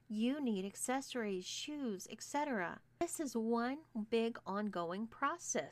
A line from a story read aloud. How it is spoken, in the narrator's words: said Gwen